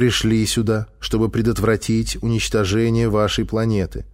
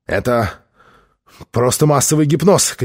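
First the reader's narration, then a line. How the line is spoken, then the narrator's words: Shouted. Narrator (Russian): крикнул он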